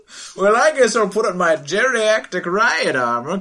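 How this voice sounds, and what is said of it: Old man voice. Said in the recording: “doing an old man voice”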